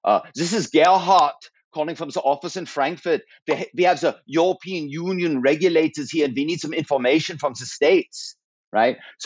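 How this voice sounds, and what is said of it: Put-on German accent. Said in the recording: “accent ... you could do a German”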